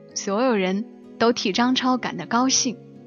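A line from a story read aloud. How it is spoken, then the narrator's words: Admiring exclamation. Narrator (Chinese): 介绍小美住进来的那个朋友感叹道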